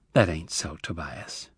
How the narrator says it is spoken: she said gently

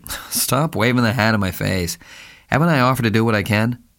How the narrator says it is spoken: He laughed impatiently and said

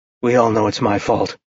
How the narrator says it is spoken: Gabe said grimly

